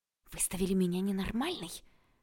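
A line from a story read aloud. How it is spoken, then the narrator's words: Angry hiss. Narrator (Russian): прошипела я и в сердцах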